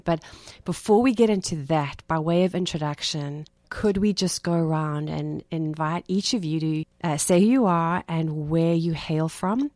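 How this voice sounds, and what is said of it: South African accent. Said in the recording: “my accent, ... I'm not from Brooklyn. I'm from South Africa”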